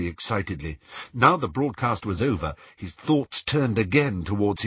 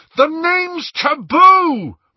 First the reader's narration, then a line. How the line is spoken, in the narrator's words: Ron bellowed